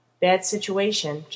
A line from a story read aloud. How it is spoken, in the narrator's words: John said